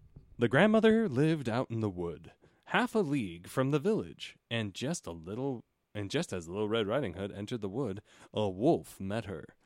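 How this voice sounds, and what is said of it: Storytelling narrator voice. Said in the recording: “Gotta get into my narrator voice. ... Gotta get my narrator voice on”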